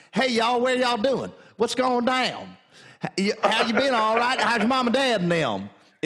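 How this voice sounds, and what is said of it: Imitated southern drawl. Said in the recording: “It turns into a real southern drawl.”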